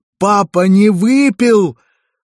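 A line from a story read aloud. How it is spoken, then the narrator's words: Shouted for all to hear. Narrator (Russian): закричал во всеуслышание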